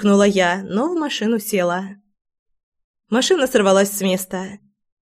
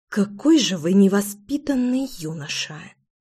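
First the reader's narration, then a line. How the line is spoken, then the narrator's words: Through gritted teeth. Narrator (Russian): Процедила я сквозь зубы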